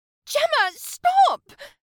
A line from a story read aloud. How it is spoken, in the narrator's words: Caroline cried out, already red-faced